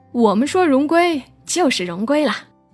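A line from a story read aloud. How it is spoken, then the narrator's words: Laughing. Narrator (Chinese): 我们也笑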